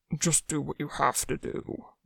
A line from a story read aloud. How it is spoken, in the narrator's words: Wanwu grunted